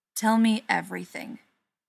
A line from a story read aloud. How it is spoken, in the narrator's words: Peter said